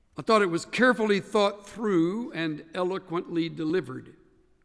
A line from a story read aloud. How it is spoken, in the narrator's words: said Lincoln